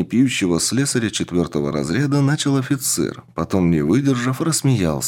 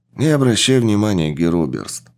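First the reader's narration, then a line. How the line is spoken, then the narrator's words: Sighing. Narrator (Russian): вздохнул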